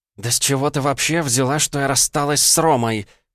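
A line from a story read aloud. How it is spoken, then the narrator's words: Through gritted teeth. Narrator (Russian): процедила Ванда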